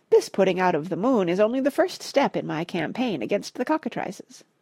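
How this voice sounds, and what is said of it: Piping imitated voice of H.H. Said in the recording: “in a remarkable imitation of H.H.'s piping voice”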